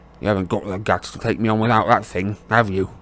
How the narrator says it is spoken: Dudley snarled

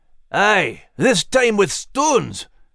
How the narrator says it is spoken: Max growled, frantically

